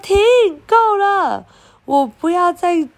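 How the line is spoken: Crying out. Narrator (Chinese): Percy 就叫叫了，他说

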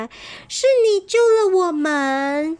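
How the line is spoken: Loud cry, group. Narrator (Chinese): 他们三个不禁大叫了起来

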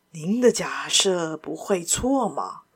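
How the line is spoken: Low voice. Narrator (Chinese): 外国人低声道

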